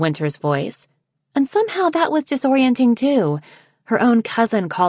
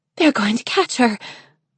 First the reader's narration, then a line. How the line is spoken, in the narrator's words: Snowfall said breathlessly